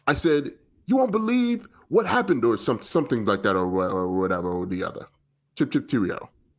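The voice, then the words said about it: Mixed British and New York accent. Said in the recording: “Some parts of that were a British accent. ... Some part was like a New York accent. ... There was a lot going on there. But I appreciate the effort.”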